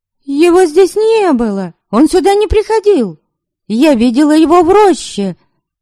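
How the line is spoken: Shouting over an interruption. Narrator (Russian): Закричала Ярисава, перебивая отца и стараясь заглушить этот поток возмущения, больше похожий на брань

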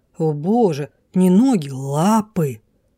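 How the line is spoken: Growling. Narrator (Russian): Я зарычала

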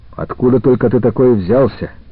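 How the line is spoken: Angry question. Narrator (Russian): сердито спросил Покровский

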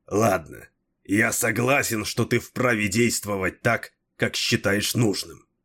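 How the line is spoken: Grumbling. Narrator (Russian): проворчал Дрибок

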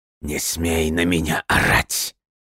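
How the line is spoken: Through gritted teeth. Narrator (Russian): процедил сквозь зубы Джордж

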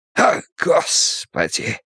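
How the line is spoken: Hoarse exclamation. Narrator (Russian): сипло восклицает Селен

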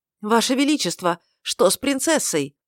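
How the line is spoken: Shout from the crowd. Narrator (Russian): выкрикнул кто-то с места

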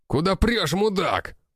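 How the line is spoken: Startled angry shout. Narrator (Russian): выкрикнул Хосе, так как нас едва не сбили

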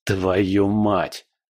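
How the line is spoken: Hissing, restrained anger. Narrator (Russian): прошипел Павел, с трудом сдерживая гнев

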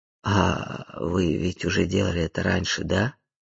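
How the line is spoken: Uncertain question. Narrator (Russian): неуверенно уточнил Тедди

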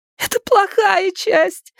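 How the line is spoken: Woman shouting. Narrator (Russian): закричала она

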